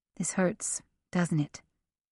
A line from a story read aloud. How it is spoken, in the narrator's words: She asked softly